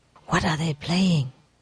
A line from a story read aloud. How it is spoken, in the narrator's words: he asked his neighbor whispering